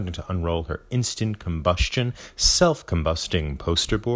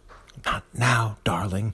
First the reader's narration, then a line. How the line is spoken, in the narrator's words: whisper back